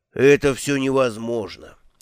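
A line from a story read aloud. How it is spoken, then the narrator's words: Glum dwarf. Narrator (Russian): уныло произнес гномий представитель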